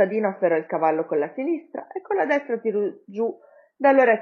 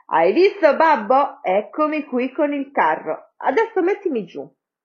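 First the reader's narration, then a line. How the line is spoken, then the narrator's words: Shouting. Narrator (Italian): Quando Pollicino scorse suo padre, gridò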